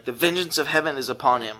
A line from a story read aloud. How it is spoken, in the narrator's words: a lot of voices around the cross that began to exclaim